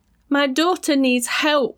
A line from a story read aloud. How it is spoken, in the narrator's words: screamed at the top of her voice